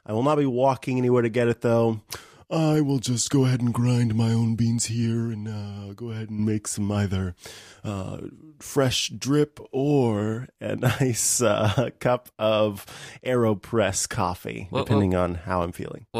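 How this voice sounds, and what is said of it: Snooty snobbish character voice. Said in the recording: “This voice is Snooty Snooterson III ... a bit of a coffee snob who kind of looks down on people”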